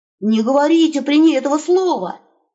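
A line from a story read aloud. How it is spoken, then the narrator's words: Hiss in ear. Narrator (Russian): прошипел он ему на ухо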